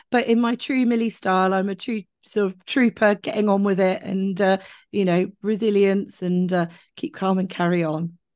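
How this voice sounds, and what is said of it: Rough, strained voice. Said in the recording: “I think you probably tell from my voice I'm just getting over a chest infection ... rest your voice”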